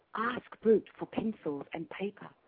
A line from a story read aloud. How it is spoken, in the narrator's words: Spoon whispered